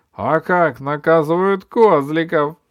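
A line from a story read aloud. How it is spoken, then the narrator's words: Laughed. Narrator (Russian): засмеялся кот в сапогах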